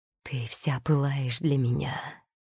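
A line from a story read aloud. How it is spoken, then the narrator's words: Husky voice. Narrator (Russian): хрипло проговорил он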